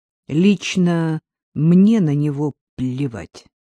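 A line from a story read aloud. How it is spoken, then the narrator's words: Through gritted teeth. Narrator (Russian): ответил сквозь зубы Дмитрий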